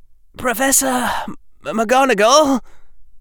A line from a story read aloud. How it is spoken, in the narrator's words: Harry said in a wavering voice